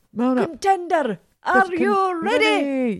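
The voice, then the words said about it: Terrible put-on accent. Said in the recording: “That was a terrible accent, wasn't it?”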